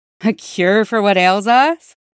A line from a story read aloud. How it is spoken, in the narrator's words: Cody's warm voice asked, laughter threading through an accent unchanged by 5 years at court